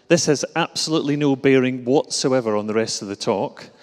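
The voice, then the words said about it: Glasgow Scottish accent. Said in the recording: “you'll recognise the accent, perhaps, as being from Glasgow”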